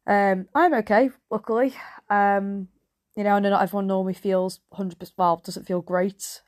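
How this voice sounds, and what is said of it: Congested, nasal voice from cold. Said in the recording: “a bit more of a sexy voice today, because Rona has finally taken me again ... a really horrible snotty cold, so I might sound a bit nasally than usual”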